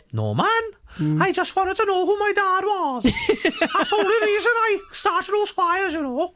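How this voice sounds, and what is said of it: Impression of a cartoon character's voice. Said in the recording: “That's my impression of Norman this morning.”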